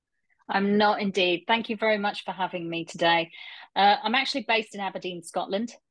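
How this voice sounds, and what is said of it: London English accent. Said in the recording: “originally from London, as you may be able to tell from the accent.”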